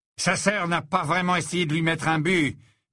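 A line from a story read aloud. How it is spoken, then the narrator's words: Menacing. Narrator (French): dit McLaggen d'une voix menaçante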